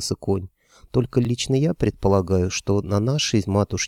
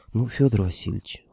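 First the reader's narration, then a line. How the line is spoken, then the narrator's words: Reproachful sigh, horse. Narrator (Russian): укоризненно вздохнул конь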